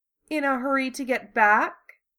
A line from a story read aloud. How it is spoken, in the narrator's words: Susan purred